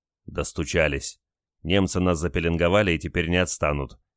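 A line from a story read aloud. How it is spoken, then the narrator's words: Angry remark. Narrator (Russian): сердито заметил Олег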